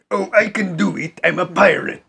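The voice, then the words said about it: Put-on pirate accent. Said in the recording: “What is that accent? ... A pirate accent?”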